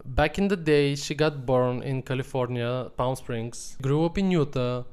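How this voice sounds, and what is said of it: Non-native foreign accent. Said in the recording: “he has an accent. It's so cute.”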